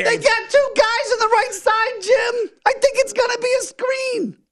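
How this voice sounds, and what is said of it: High-pitched imitation of a sports commentator. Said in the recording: “Romo impression... that's my high pitched Tony Romo... You moved them up four octaves.”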